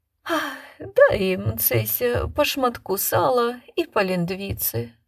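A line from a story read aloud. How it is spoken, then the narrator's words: Lady's sigh. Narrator (Russian): вздохнула пани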